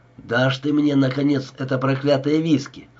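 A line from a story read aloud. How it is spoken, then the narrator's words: Grumbling. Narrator (Russian): заворчал Бит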